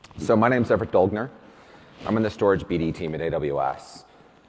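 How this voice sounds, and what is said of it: Strained, nearly lost voice. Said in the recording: “I'm somewhere around the point of actually losing my voice.”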